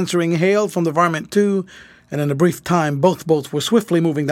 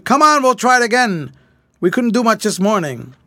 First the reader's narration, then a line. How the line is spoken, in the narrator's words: Taking his megaphone, Fred shouted